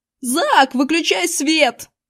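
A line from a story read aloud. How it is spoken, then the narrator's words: Yell. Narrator (Russian): заорал я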